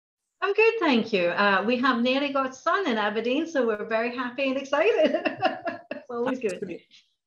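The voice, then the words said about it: Mixed international accent. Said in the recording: “I have an amalgamation of different accents. So North America, Australia, Singapore, Malaysia, Finland, Germany”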